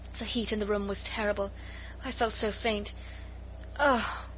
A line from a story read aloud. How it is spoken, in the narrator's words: She uttered a groan, and murmured faintly